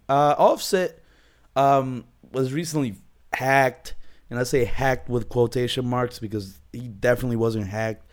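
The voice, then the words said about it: Sick, hoarse, fading voice. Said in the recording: “I'm sick as shit... my voice is nearly gone. I'm sniffling. I'm coughing.”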